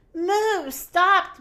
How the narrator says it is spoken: Minnie yelled

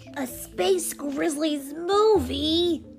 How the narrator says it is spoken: cried

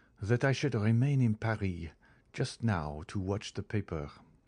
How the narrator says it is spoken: added he in a low tone

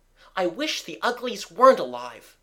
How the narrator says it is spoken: cried

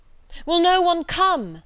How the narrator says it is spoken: it cried

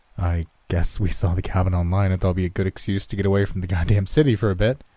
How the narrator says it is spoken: I chuckled again, feeling more awkward by the second

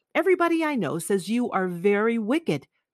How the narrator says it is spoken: cried the old lady

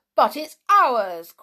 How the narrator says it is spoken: cried Peter indignantly

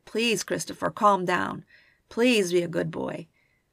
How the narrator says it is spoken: In desperation, Walt hoarsely implored

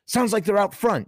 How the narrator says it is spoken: yelled Meat

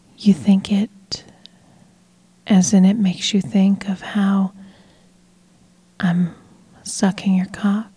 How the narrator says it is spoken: She whispered seductively

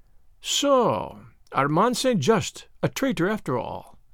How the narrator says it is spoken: he murmured

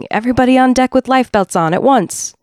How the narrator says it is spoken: shouting

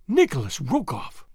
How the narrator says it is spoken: she exclaimed

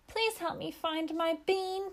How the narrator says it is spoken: pleaded the sparrow

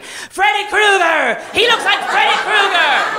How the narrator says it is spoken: I just start screaming

